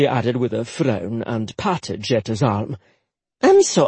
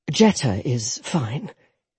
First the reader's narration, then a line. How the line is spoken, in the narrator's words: Jetta said gently